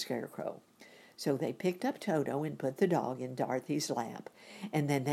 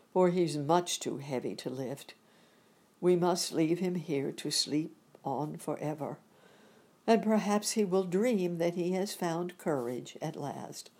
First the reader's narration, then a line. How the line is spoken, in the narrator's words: said the Tin Woodman sadly